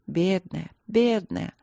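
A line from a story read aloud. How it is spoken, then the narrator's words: Sighed. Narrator (Russian): вздохнула Далин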